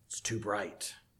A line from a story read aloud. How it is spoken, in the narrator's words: they grumbled